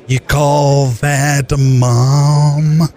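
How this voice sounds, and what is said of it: Jack Nicholson impression. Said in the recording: “I've been working on a Jack Nicholson impression ... That's my Jack”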